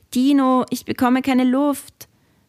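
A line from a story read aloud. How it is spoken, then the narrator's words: Choked call. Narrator (German): mit erstickter Stimme rief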